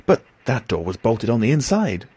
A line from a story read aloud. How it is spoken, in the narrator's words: I cried